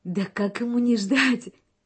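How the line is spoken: Laughing girl. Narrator (Russian): смеялась девушка

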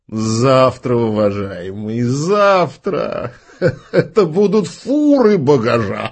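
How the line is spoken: Laughing, haughty disdain. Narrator (Russian): засмеялся тетеря и добавил с надменным пренебрежением

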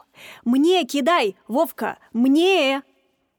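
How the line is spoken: Shout. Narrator (Russian): Один в белой кепке кричал

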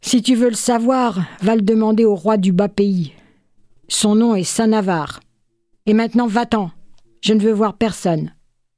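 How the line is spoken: Growled, grimacing. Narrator (French): L'autre gronda, grimaçant

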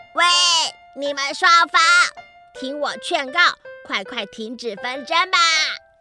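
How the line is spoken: Shouting as loud as possible. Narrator (Chinese): 虾虎鱼……尽他所能大声的喊

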